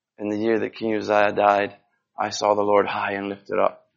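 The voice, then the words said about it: Scottish accent. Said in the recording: “It sounds a lot better in a Scottish accent”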